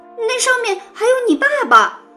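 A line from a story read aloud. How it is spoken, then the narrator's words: Exclaiming. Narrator (Chinese): 露露叫道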